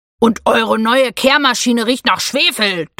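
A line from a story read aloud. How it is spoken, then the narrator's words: Thundering interruption. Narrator (German): donnerte Theo dazwischen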